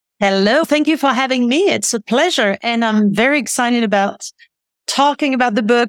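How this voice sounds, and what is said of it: French accent. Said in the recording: “I can pick up on your accent. You're a French natively?... Yes. Yes, born and raised”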